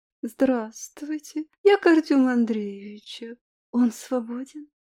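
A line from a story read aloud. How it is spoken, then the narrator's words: Languid voice. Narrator (Russian): яркая блондинка томным голосом сказала секретарше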